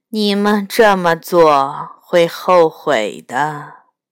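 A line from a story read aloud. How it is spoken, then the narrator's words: Sighing. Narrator (Chinese): 叹了口气说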